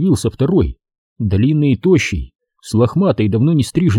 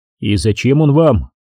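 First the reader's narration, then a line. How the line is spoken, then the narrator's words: Completely calm question. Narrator (Russian): совершенно спокойно спросил капитан, уже ничему не удивляясь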